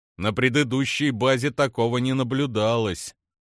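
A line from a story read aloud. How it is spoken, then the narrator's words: Grimly. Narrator (Russian): мрачно проговорил Апрос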